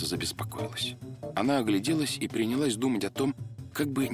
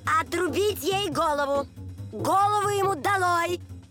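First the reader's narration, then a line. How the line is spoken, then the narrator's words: Queen furiously shouting. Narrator (Russian): королева пришла в бешенство, то и дело кричала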